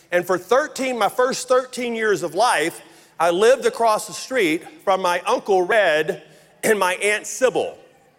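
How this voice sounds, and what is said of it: Rural Louisiana Southern accent. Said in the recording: “you may know this from my accent, but I grew up in very rural North Louisiana”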